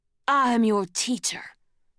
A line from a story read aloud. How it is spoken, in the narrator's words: Kestrel snarled